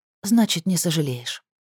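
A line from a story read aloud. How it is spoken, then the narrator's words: Whisper. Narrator (Russian): прошептала она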